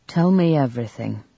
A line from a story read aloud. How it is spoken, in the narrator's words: The physician gave a deep sigh and said with exemplary calm